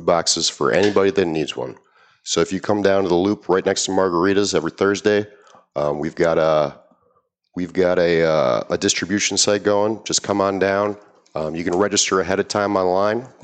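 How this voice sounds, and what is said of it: Polished, broadcast-style radio voice. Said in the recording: “you've got a great radio voice.”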